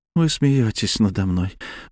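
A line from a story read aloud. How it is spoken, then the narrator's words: Young woman's sigh. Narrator (Russian): вздохнула девушка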